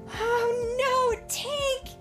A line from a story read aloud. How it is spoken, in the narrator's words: Iridesa cried